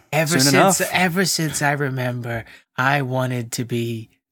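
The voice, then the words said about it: Sleepy put-on woman's character voice. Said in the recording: “It was supposed to be a woman doing Ray Liotta ... you sounded like a sleepy version of Roz from Monsters Inc.”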